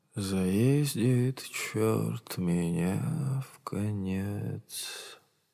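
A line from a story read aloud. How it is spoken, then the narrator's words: Hoarse singing to himself. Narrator (Russian): хрипло напевал себе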